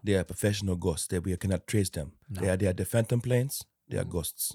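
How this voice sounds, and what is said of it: Imitates another person's accent. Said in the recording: “Take notes, Will Smith, for that accent... Yeah, that was good. It was good... It's almost like Sango was here”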